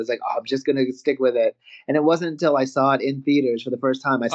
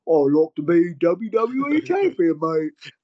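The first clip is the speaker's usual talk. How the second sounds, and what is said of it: Deliberately bad English accent. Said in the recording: “I do the absolute worst English accent you could ever imagine”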